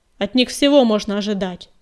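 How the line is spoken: Barking. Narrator (Russian): рявкнул Ветрогон

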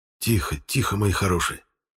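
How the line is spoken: Soothing whisper. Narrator (Russian): шепотом приговаривал я

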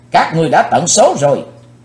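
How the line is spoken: Young hero's thunderous roar. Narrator (Vietnamese): chàng thiếu hiệp theo tiếng quát cuồn cuộn bốn bề như lôi điện

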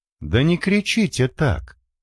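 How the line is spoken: Calm remark. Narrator (Russian): спокойно заметила собеседница

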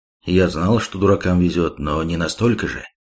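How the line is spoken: Dry flat statement. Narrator (Russian): сухим голосом констатировал

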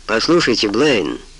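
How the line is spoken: Deep bass voice. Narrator (Russian): пробасил он

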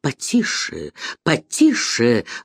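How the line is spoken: Indignant muttering. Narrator (Russian): бормотал с негодованием Бир

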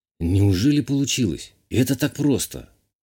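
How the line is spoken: Breathless exhale. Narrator (Russian): выдохнул я

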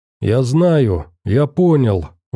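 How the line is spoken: Shouted. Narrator (Russian): выкрикнул Заяц

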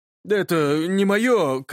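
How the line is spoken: Shouted after someone. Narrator (Russian): крикнул ему вдогонку Юрич

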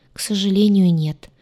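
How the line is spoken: Sad sigh. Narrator (Russian): печально вздохнул он

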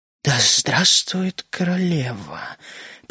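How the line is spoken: Soft whisper. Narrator (Russian): прошептала она тихо

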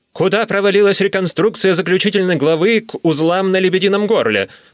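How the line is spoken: Short man shouting. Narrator (Russian): крикнул в проход низенький княжнец

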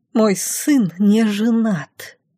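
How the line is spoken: Mother's hiss. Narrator (Russian): прошипела Пашина мама

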